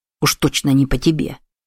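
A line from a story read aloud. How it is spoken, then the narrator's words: Muttered. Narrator (Russian): пробормотал Кацуо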